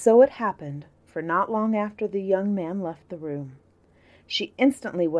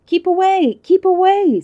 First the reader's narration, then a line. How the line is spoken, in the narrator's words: screamed the other two